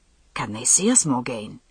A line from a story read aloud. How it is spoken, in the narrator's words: His voice was a rough whisper